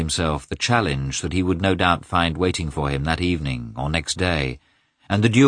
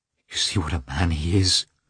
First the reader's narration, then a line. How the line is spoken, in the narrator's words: she said in a trembling voice